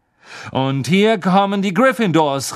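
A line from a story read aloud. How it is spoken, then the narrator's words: Commentator calling out. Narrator (German): rief Lee Jordan, der wie immer das Spiel kommentierte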